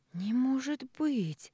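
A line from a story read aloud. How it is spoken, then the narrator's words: Shocked breathless. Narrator (Russian): потрясенно выдохнула я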